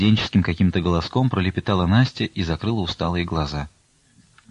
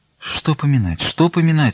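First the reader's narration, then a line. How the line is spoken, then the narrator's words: Quiet sobbing speech. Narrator (Russian): всхлипывая, тихо молвила Аксинья Захаровна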